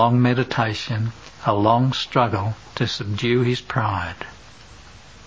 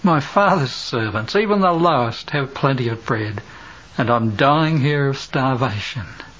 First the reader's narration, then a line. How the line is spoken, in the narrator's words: he sighed